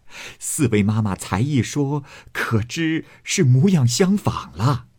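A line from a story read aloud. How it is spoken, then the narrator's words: Several laughing together. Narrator (Chinese): 李纨等笑道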